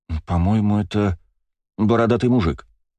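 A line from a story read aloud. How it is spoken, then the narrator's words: Uncertain. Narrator (Russian): неуверенно сказала Ева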